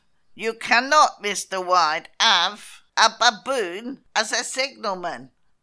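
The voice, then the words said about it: Put-on accent for a character. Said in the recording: “That was my accent. ... It's fantastic.”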